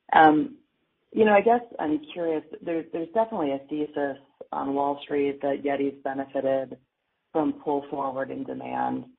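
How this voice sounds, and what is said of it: Sick, rough voice. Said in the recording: “Sorry for my voice. I'm battling a little bit of something here.”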